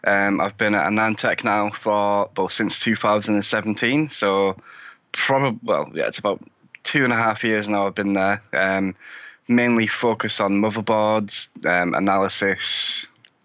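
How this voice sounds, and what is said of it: British accent. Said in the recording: “as you can probably tell by my accent, I'm from the UK”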